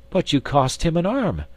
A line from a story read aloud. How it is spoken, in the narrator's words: exclaimed Miss Theodosia